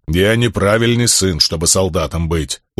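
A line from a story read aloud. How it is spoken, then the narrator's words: Stubborn grumble. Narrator (Russian): упрямо проворчал камень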